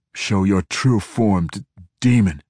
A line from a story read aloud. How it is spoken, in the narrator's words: Entreri ordered, but he stuttered at the end, clearly confused